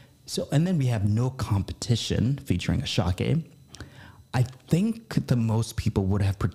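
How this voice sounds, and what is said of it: Usual voice. Nothing is said of it.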